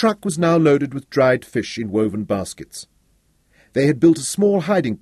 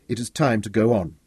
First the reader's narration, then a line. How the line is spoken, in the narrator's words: Patrick stood up and told her quietly